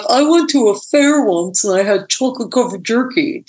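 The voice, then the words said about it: Imitates another person's voice. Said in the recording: “That was a perfect imitation of me.”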